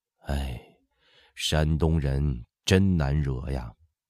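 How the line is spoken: Sighing. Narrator (Chinese): 李世尧想起刘墉在天街的话，和福康安说话的印证，不禁叹道

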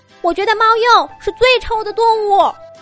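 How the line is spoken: Small animals shouting. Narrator (Chinese): 小动物在台下喊起来

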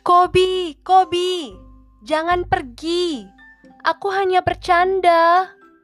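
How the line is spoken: Shouting. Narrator (Indonesian): teriak Jolu

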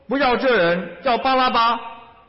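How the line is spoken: Crowd shouting. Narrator (Chinese): 他们又喊着说

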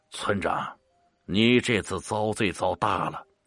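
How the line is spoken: Sighing. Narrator (Chinese): 大伯叹了一口气

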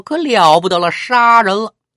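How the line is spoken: Someone shouts. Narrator (Chinese): 也不知道谁喊了一声，说

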